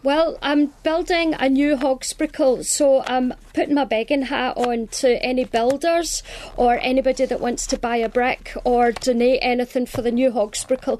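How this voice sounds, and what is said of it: Scottish accent. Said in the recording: “with that beautiful Scottish accent ... I love that Scottish accent”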